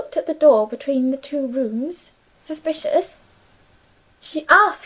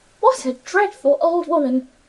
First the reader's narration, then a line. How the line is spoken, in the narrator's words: Emily exclaimed